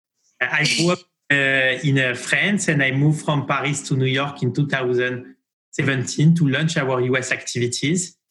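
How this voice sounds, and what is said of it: French accent. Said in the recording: “your accent being French ... My accent is a very beautiful and charming French accent”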